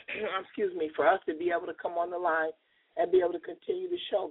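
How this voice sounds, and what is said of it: Voice hoarse from a cold. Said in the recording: “sorry for my voice. I'm battling a cold”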